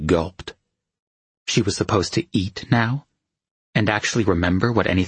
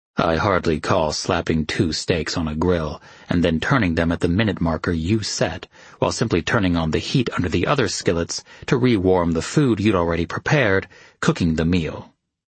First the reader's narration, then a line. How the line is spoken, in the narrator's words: he said dryly